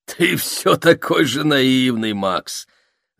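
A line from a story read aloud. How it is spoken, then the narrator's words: Laughing. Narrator (Russian): рассмеялся Войтек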